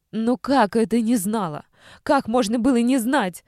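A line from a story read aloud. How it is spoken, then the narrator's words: Mother shouting. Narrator (Russian): кричала мама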